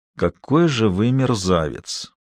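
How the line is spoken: Muffled mutter. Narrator (Russian): пробормотал глухим голосом

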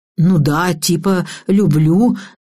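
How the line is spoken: Forced out reluctantly. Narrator (Russian): Наконец-то выдавил из себя Михаил

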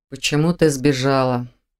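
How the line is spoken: Muffled hollow voice. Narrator (Russian): глухо проговорил Виктор

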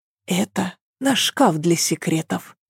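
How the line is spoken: Whisper. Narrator (Russian): шепнула она

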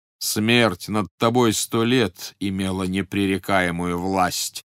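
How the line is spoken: Plain. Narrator (Russian): сказал Создатель

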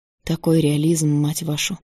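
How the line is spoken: Hoarse male voice. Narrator (Russian): хрипло произнес Иван Фонарев

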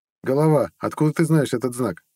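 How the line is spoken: Scoffing grunt. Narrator (Russian): хмыкнул

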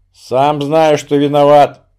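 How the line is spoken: Grumbling. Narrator (Russian): буркнул Строганов

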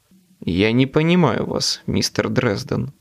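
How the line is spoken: Icy tone. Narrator (Russian): ледяным тоном произнес мистер Государственная тайна

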